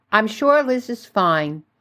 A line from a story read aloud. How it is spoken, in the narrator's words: she said, her voice tight and controlled